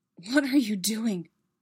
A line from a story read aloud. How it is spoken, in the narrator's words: Anakin whispered